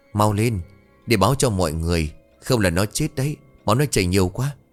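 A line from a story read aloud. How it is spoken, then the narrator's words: Trembling. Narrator (Vietnamese): Sơn run rẩy nói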